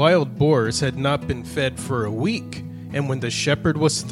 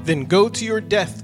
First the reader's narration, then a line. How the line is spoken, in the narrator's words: cried the king